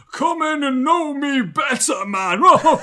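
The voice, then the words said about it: Theatrical character voice impression. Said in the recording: “That was actually quite a good impression. That was pretty good.”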